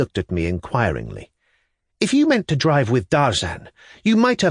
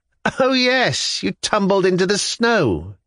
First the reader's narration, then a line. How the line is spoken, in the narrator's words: said, and laughed